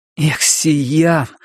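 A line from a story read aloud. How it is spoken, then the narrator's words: Desperate exclamation. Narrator (Russian): в отчаянии воскликнул Кориолан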